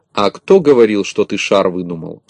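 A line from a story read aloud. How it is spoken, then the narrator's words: Plain. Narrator (Russian): спросил Пончик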